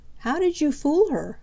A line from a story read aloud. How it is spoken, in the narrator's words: asked Peter